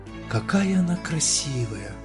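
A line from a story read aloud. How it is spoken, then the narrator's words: Whispering. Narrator (Russian): прошептал он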